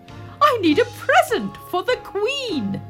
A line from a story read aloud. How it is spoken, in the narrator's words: he shouted